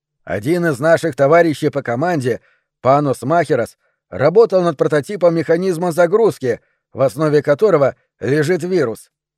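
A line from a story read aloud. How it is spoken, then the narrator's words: Plain. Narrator (Russian): сказал Гарвас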